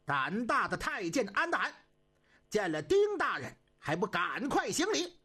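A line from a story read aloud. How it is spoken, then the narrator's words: Loud formal shout. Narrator (Chinese): 中军高声喊喝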